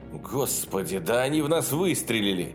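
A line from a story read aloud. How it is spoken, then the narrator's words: Indignant exclamation. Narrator (Russian): воскликнул Карстерс, скорее возмущенно, чем напуганно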